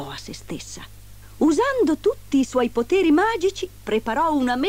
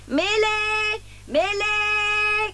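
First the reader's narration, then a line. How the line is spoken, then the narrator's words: Shouting. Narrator (Italian): gridava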